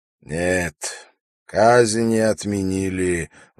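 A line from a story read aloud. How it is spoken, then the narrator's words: Sighing. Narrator (Russian): вздохнул Умар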